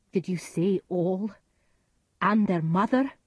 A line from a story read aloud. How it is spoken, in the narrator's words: Macduff cried